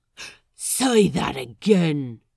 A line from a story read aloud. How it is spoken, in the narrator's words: Roach whispers